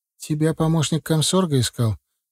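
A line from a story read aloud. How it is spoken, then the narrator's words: Quiet. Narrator (Russian): тихонько сказала жена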